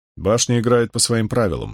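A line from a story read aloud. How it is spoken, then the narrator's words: Plain. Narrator (Russian): сказал Том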